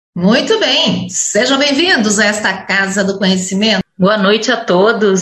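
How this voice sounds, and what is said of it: Polished announcer-style broadcast voice. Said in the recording (Portuguese): “com voz de jornalista, locutora”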